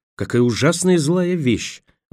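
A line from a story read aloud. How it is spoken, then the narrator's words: Exclamation. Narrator (Russian): воскликнула Роэн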